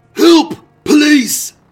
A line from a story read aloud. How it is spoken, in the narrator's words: the shop's bloodied owner, Albert Stock, staggered into the street screaming